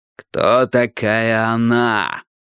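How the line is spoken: Growling. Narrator (Russian): прорычал Страйк

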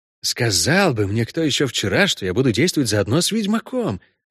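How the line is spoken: Low undertone. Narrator (Russian): промолвил Матадор вполголоса

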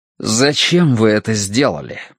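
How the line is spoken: Demanding, defiant tone. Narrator (Russian): спросил он требовательно, слишком вызывающим тоном

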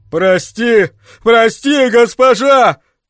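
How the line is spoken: Shouting. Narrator (Russian): кричал Фицко

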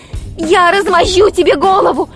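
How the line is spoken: Desperate shout. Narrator (Russian): в отчаянии крикнула Хиллари

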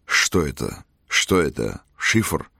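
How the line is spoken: Mutter. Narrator (Russian): бормотал он

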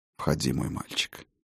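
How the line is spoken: Quiet. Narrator (Russian): негромко произнес он

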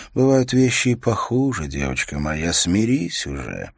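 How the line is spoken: Tired older woman. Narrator (Russian): Через несколько дней Яна, одна из старших кухонных рабынь, сказала ей устало

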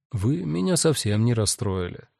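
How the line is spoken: Soft, gentle. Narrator (Russian): мягко сказал Гест

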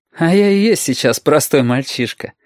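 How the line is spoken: Laughing. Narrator (Russian): опять посмеялся Юртанка

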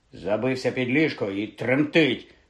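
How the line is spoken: Angry reply. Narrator (Ukrainian): сердито озвався Рон

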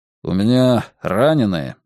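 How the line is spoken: Dry. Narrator (Russian): сказал он сухо

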